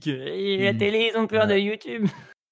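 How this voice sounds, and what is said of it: Imitation of a stereotypical young geek. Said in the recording (French): “une belle imitation du petit geek”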